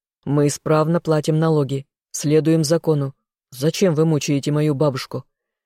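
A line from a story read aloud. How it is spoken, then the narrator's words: Young man growling. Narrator (Russian): рыкнул юноша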